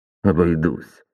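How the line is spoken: Grumbled, duke. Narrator (Russian): буркнул герцог

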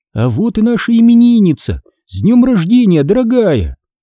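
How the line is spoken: Exclaiming. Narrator (Russian): воскликнула мама

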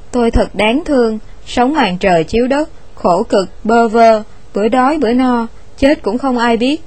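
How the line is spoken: Pitiful stammer. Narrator (Vietnamese): Ông ta lắp bắp một cách tội nghiệp

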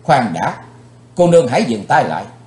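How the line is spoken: Sharp shout. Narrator (Vietnamese): Chàng quát lên

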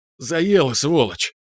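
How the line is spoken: Hoarse, strained, after coughing. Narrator (Russian): Откашлявшись, сипло выдавил он

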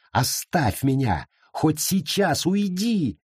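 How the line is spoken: Scream. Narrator (Russian): Она закричала

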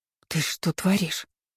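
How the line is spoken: Gasping hiss. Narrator (Russian): прошипела я маленькими глотками, хватая воздух

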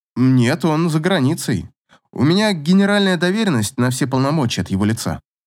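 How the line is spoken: Guilty tone. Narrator (Russian): ответил Павел отчего-то совершенно виноватым тоном

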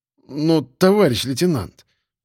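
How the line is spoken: Pleading. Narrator (Russian): взмолился тот, который Леха, который Собачкин

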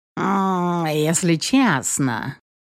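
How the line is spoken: Cynical purr. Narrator (Russian): промурлыкал пушисто-прозрачный циник

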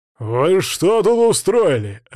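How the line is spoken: Barking head guard. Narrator (Russian): рявкнул главный стражник

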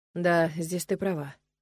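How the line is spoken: Sighed. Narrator (Russian): вздохнул Нолан

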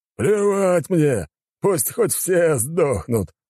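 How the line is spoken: Guffawing. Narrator (Russian): расхохотался Гульфиус

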